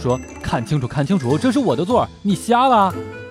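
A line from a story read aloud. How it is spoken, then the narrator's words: Loud clamoring. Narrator (Chinese): 帅哥 嚷嚷道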